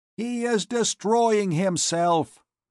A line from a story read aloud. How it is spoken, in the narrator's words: he cried aloud